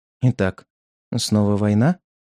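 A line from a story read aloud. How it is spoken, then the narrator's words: Mutter. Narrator (Russian): пробормотала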